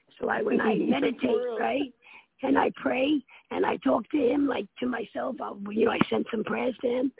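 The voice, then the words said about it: Raspy voice. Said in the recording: “my voice is getting all raspy”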